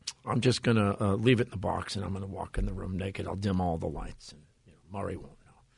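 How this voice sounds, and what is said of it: Usual voice. Nothing is said of it.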